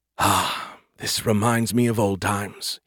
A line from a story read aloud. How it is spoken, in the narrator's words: he sighed